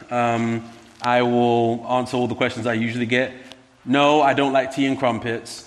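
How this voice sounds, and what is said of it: British London accent. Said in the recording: “You may pick up an accent. I am indeed from London.”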